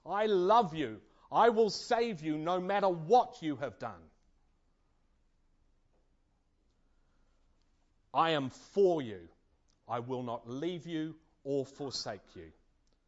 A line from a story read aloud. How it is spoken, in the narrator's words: God shouts at us from the cross